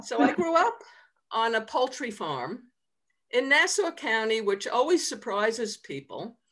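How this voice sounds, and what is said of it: Long Island New York accent. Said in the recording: “I grew up on Long Island, which is outside of New York City... And I still have my accent. Some people lose it. Mine likes to stay with me.”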